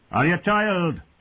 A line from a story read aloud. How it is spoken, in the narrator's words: he called out